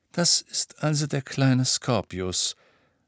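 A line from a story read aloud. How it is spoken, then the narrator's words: Quiet voice. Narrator (German): sagte Ron mit leiser Stimme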